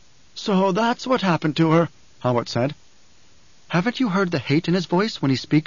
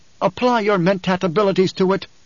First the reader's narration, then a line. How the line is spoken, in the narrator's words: she snapped